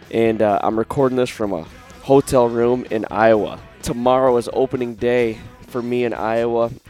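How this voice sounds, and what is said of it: Sick, congested-sounding voice. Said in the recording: “if you guys can't tell from my voice, I am sick and I don't feel good ... I got a lot of head pressure. Colds hit me pretty hard.”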